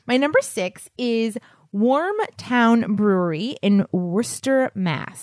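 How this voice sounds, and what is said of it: Regional accent. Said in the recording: “But that was just your accent.”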